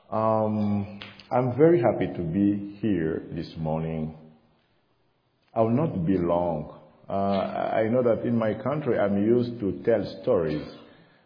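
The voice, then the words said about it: African French-accented English. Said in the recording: “English is not my first language. My first language is French ... my accent is African”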